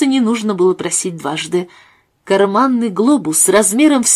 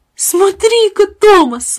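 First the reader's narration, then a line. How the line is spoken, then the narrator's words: Exclamation. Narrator (Russian): воскликнул Джеймс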